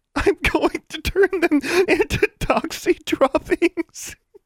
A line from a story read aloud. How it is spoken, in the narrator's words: Alexandra shouted between uncontrollable giggles